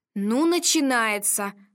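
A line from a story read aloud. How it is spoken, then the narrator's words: Stern. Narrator (Russian): строго произнесла Вика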